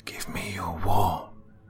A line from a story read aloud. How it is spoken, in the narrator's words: she whispered